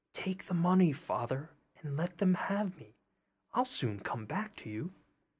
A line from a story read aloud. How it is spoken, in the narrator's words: Tom whispered in his ear